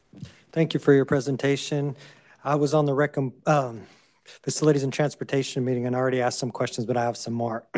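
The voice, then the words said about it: Hoarse, failing voice. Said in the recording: “I'm losing my voice.”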